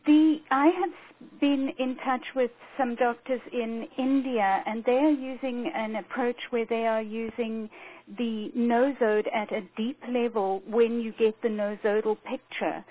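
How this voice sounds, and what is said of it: South African accent. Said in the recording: “But I hear a South African accent.”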